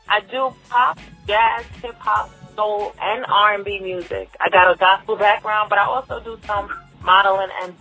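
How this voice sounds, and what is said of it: New York accent. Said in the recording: “That's a New York accent. Are you from New York?”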